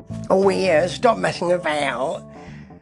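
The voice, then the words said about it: Kenneth Williams impression. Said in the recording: “do an impression of Kenneth Williams”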